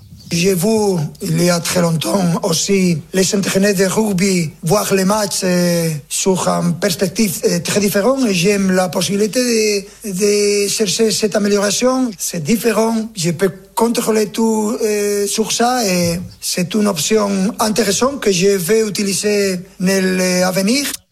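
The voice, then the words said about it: Weak Spanish accent imitating Luis Enrique. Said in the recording (French): “je peux faire avec l'accent ... Mais bon, pas très réussi. ... Peut mieux faire en accent espagnol.”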